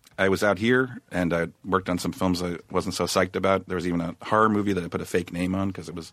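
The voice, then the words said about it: Sick, strange-sounding voice. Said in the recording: “I'm sick? That's why my voice sounds strange.”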